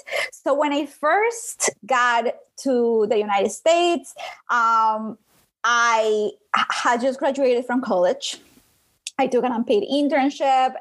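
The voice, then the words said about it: Colombian accent in English. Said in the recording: “if you can hear my voice, I have an accent. ... I'm from Colombia”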